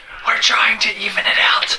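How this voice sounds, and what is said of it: Dramatic whispering. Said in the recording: “This suddenly turned into a whisper podcast ... This is dramatic whispering”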